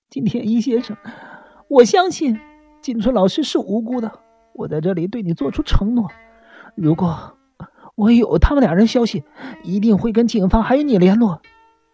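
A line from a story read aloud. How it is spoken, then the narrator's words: Choked with sobs. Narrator (Chinese): 丽花茂树哽咽着说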